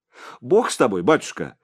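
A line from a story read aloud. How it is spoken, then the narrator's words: Exclamation. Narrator (Russian): воскликнул Смужко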